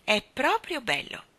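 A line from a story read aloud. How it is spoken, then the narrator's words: Admiring, warm exclamation. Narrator (Italian): esclamò Mary Poppins ammirata, e Jane e Michael furono sorpresi dal tono amabile e cordiale della sua voce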